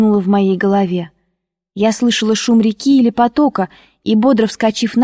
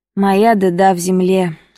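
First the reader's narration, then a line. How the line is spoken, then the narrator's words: Sad reply. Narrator (Russian): отвечала печально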